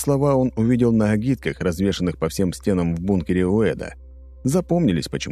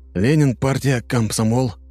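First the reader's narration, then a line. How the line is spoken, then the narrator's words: Mumbled. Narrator (Russian): промямлил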